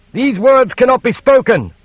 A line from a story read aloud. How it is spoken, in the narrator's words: the prelate cried